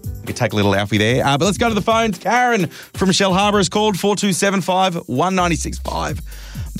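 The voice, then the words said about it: Out of breath, breathless speech. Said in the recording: “Man, I'm running out of breath.”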